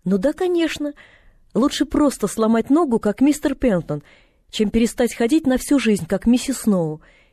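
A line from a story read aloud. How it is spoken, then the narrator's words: Cheerful girl. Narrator (Russian): весело проговорила девочка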